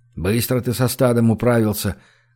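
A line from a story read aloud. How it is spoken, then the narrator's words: Grumbled. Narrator (Russian): буркнул Гош в сторону Кости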